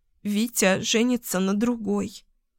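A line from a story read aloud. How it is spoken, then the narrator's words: Sobbing. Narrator (Russian): всхлипнула я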